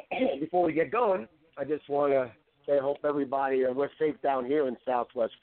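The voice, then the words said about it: Raspy, nasal congested voice. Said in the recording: “cough a little bit or sound a little nasally, I am got a little cold... out of congestion... my raspy, I'll just call that my raspy voice”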